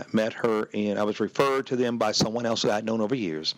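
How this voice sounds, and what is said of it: Hoarse, slightly winded voice. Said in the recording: “maybe I'm a little winded. Actually, I'm a little hoarse, too. You know, yelling, screaming”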